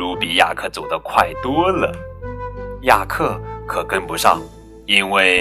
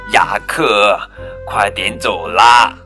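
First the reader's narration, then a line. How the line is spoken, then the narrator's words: Sighing. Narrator (Chinese): 露露叹着气说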